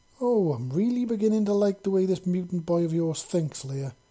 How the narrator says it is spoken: Paladin Wright said with a chuckle

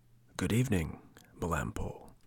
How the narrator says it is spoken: One of the polecats said, in a low voice

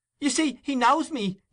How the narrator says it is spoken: cried Nancy, appealing to the bystanders

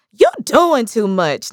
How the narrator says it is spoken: Nia laughed

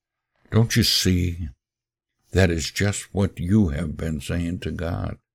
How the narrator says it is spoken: he said in a low voice

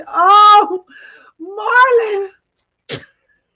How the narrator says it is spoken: yelled out in pure ecstasy

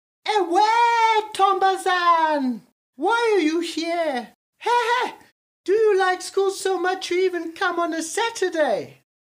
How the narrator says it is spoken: the old woman who lived there called out

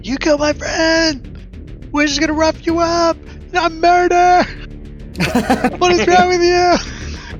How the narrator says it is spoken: this guy's yelling at you guys like

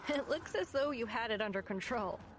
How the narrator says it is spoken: said, laughing

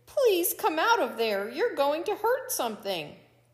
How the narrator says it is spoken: Coyote pleaded

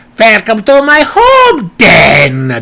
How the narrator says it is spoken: the wizard yelled triumphantly

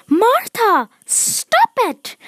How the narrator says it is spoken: Everyone cried

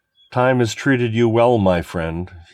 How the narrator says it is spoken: said

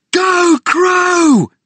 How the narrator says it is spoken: We yelled

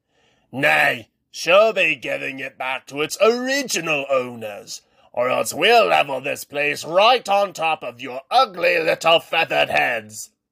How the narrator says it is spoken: the dwarf leader barked back

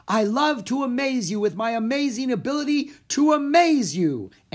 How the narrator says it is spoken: Annie shouted

